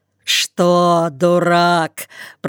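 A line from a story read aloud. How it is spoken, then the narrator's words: Grumble. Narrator (Russian): проворчал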